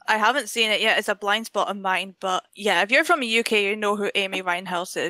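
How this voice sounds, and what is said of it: British accent. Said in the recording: “you're in the UK ... Maybe your accent gave it away”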